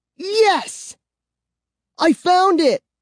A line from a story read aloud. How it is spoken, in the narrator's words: I cried